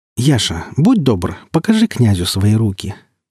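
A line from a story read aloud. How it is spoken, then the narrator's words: Gentle, smiling request. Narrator (Russian): ласково улыбаясь, попросил Никита Андреевич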